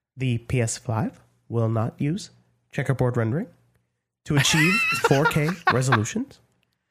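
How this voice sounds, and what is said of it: Imitates another person's voice. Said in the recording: “my Mark Cerny impression ... it needs a little work”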